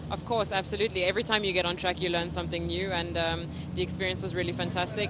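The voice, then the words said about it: Slight South African accent. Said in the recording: “a tiny bit of that South African accent”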